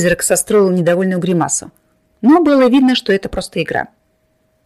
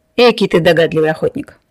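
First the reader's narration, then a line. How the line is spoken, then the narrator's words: Approving snort, ghost. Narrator (Russian): Призрак одобрительно хмыкнул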